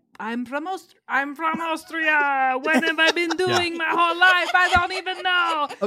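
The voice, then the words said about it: Arnold Schwarzenegger impression, vampire-like. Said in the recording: “your Arnold Schwarzenegger impression ... you just sounded like a vampire from What We Do in the Shadows ... You did a great job”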